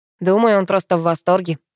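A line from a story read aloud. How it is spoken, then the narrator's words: Wry snort. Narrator (Russian): хмыкнул Пашка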